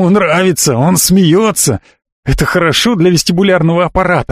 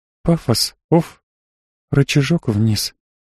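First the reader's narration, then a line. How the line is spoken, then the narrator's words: Whispered under breath. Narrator (Russian): прошептала себе под нос Лиза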